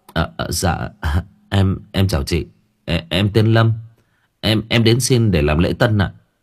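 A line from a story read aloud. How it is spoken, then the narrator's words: Startled young man stammering. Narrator (Vietnamese): Người thanh niên bừng tỉnh, lắp bắp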